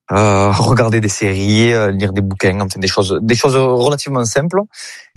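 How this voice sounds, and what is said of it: Regional French accent, not northern. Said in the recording (French): “malgré votre accent, on rappelle que vous jouez bien à Lille, dans le nord de la France”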